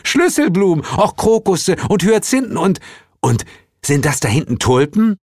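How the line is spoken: Calling out. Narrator (German): rief Zuko

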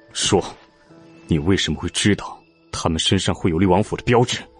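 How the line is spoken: Cold demanding. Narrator (Chinese): 楚天冷声逼问

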